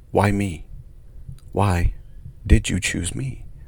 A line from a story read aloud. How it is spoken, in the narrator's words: she quietly asked the caretaker in a whisper